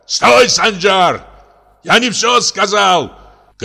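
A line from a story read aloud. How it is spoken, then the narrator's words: Father shouting after someone. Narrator (Russian): крикнул отец вдогонку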